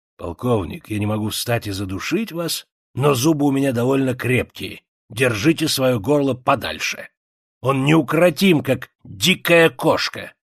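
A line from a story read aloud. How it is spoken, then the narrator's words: Low voice. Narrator (Russian): проговорил вполголоса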